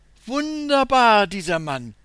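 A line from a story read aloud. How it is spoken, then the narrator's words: Woman calling out. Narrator (German): ruft die Frau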